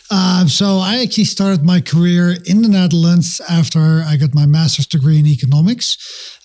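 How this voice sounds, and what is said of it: Dutch accent in English. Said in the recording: “I'm from the Netherlands originally. So that's a funny accent. It's definitely not a Denver, Colorado accent”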